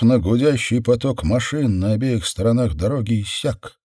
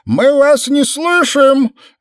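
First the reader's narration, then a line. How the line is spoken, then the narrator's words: Shouted through cupped hands. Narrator (Russian): Сложив руки рупором, крикнул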